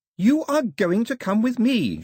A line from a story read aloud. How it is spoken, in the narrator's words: shouted Daphne